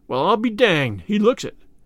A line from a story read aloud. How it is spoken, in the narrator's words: replied Spears